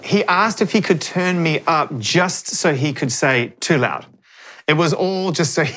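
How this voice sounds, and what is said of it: New Zealand accent. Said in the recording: “that beautiful voice of yours. Your beautiful New Zealand accent.”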